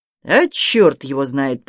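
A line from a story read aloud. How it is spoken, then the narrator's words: Deep booming rumble. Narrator (Russian): прогудел Балабуха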